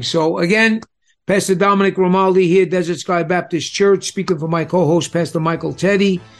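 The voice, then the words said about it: Strong regional accent. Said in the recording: “you can only take so much of my accent”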